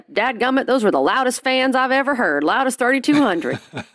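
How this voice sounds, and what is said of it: Imitates another person's voice. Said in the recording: “my Roy impression.”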